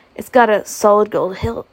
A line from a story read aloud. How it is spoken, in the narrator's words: he said